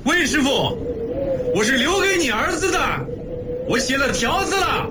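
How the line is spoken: Shouting through cupped hands. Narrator (Chinese): 邓中夏 双手围在嘴前喊

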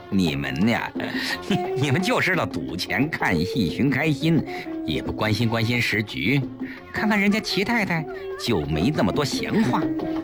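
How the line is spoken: Smiling. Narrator (Chinese): 陈夫人笑笑

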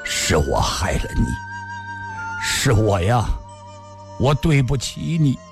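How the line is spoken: Hoarse, word by word. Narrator (Chinese): 李寻欢的声音已嘶哑，一字字说道

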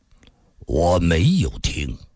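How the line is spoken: Cold, expressionless. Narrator (Chinese): 金无命脸上全无表情，冷冷地说道

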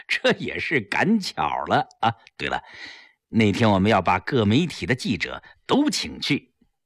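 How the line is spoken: Smiling, modest. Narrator (Chinese): 齐长风笑笑，谦虚地说

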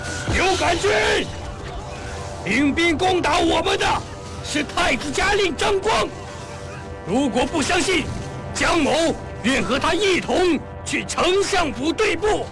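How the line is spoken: Loud shouting. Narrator (Chinese): 只听得阙楼上江冲在大声地呼叫

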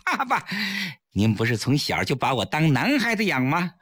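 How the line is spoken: Laughing. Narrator (Chinese): 崔月笑着

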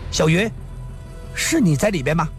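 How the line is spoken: Pleasant, sweet voice. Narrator (Chinese): 这声音很动听

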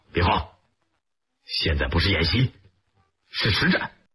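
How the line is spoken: Cold barked command. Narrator (Chinese): 徐参谋冷冷喝道

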